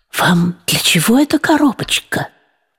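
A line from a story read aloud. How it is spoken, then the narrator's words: Quiet question. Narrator (Russian): вполголоса спросил Никита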